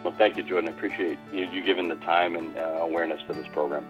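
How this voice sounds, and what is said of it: New England accent. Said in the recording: “you're a New Englander by trade and accent”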